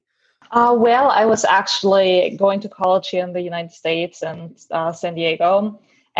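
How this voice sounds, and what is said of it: German accent. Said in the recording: “People can probably hear your accent from Germany.”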